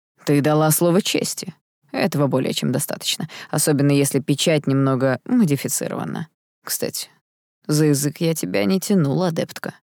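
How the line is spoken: Mocking reply. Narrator (Russian): насмешливо ответил принц

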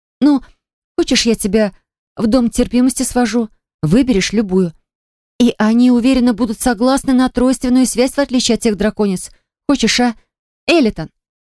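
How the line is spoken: Cry, then stern tone. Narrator (Russian): Я вскрикнула и добавила строгим тоном

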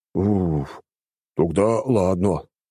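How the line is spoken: Relieved exhale. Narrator (Russian): выдохнул он

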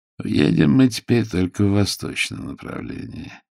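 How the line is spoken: Said gloomily. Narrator (Russian): мрачно молвил Аркан

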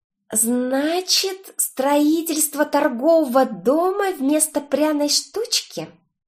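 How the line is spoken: Hissed. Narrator (Russian): Даже не процедила, а прошипела я

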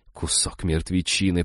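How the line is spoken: Grumbled. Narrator (Russian): проворчала Изабелла

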